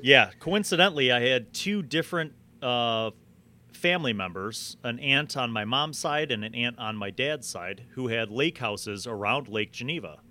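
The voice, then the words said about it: Northern US Chicago accent. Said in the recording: “I'm picking up a northern accent there. Are you possibly from Wisconsin? ... Chicago all my life.”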